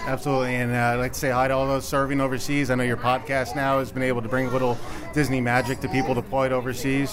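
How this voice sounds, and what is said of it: Slight Long Island accent. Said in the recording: “a little bit of a non-Dallas twang going there ... It is a little Long Island there”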